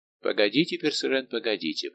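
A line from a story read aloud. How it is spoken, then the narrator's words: Conciliatory tone. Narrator (Russian): произнес примирительным тоном капитан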